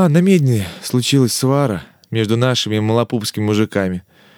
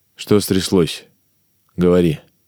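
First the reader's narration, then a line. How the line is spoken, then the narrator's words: Calm question. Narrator (Russian): спокойно спросил Иван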